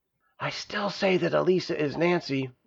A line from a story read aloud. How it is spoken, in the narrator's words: whispered Stavius